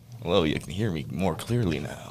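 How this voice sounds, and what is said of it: Put-on deep sexy radio voice. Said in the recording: “The radio voice. ... they always try to put on their sexy voice ... sexy”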